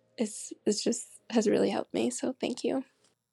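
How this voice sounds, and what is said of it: Teary, emotional voice. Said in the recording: “I'm getting a little teary-eyed.”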